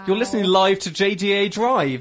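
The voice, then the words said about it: Speaks very slowly. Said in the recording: “said it so slowly.”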